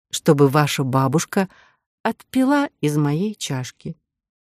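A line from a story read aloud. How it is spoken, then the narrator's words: Slow, deliberate. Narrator (Russian): сказала Кора медленно и раздельно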